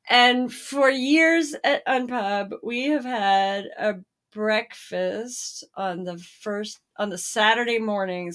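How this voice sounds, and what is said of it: Hoarse voice. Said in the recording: “my voice is quite hoarse. I'm really hearing it as we're talking.”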